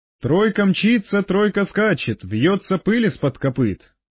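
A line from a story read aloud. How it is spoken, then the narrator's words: Laughing. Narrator (Russian): он засмеялся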